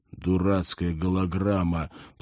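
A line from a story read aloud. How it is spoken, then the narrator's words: Embarrassed mumble. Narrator (Russian): пробормотал Сакай, тщетно пытаясь согнать с ушей краску стыда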